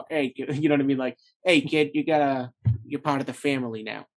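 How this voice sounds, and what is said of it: Put-on New York mafia accent. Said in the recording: “I always give mafia people, I have to give them like that New York ... I'm terrible at that accent”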